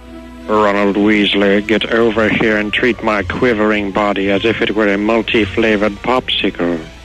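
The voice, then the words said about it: Professor Snape character impression. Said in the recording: “my impression ... It's my Snape. ... Professor Snape.”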